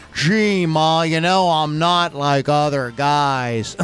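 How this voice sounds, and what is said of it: Imitated character voice, drunken-sounding. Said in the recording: “This is ... I've been drinking voice. Or are you just actually imitating the Waldo thing?”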